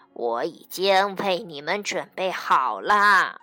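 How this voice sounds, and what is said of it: Hoarse, raspy character voice. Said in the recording (Chinese): “他用沙哑的声音说”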